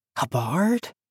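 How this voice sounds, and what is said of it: Very low, near-whispered questioning voice. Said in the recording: “His voice dropped very low, almost to a whisper ... It sounded more like a question.”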